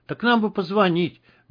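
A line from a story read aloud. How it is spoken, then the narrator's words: Helpless babbling. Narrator (Russian): беспомощно пролепетал Журавлев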